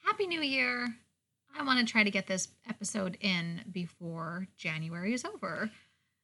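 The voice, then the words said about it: Whispering. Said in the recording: “it sounds like I'm whispering and being a weirdo, that's what I'm doing. I'm whispering”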